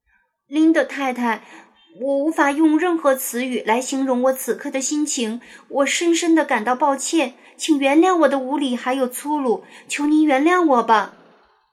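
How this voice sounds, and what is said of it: Nearly trembling, pleading voice. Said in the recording (Chinese): “安妮用近乎颤抖的声音说道”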